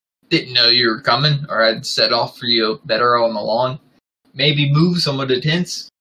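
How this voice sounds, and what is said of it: Hagrid character voice, slightly Scottish attempt. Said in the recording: “great Hagrid impression ... I'm purposely trying to do like a slightly Scottish Hagrid ... That's not coming through ... Stick to regular old Hagrid”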